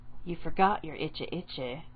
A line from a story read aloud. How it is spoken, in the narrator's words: Aruka murmured